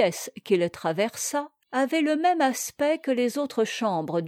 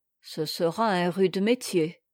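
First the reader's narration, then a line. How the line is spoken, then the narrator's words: Gloomy grumbling. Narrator (French): grommela Maître Luc, dont le front s'était considérablement rembruni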